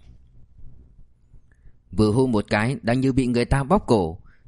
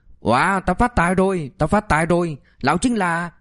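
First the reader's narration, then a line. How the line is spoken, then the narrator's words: Excited yelling. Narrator (Vietnamese): Tên giật tóc gào lên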